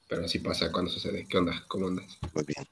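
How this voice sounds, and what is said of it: Hoarse, slightly congested voice. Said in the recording (Spanish): “ando con medio mormadillo ... te oyes medio garrasposo”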